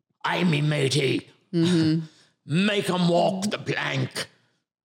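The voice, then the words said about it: Put-on pirate accent. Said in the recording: “That's a pirate accent... That is a pirate accent.”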